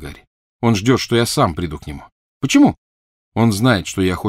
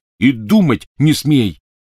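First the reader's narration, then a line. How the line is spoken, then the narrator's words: Barked. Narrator (Russian): рявкнул на нее Рон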